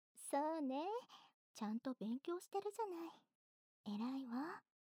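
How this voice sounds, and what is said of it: Soft voiced whisper. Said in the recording (Japanese): “ここからは小さな声で話すから...有声音のささやき...なるべく小さめに喋っているけど、かすかに喉が振動しているの”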